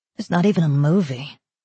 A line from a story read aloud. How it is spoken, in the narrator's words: She looked sullenly at the man and added